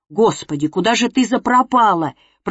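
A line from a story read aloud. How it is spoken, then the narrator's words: Near-hysterical hiss. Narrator (Russian): прошипел он с почти истеричным выражением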